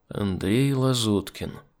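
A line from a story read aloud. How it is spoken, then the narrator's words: Muttered. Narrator (Russian): пробормотал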